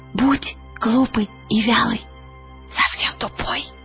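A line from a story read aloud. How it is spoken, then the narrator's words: Whisper in ear. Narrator (Russian): Пантелеймон Щегол шепнул ей на ухо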